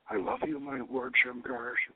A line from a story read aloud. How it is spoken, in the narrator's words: she whispers